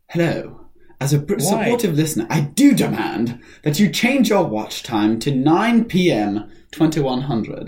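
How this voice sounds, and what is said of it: Put-on British accent. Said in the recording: “I should say this with, like, a British accent, shouldn't I?”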